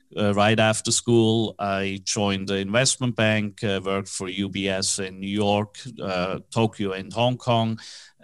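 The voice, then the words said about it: Swiss accent in English. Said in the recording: “That strange accent, even though I'm based in Dallas, is from Switzerland. I was born in Switzerland.”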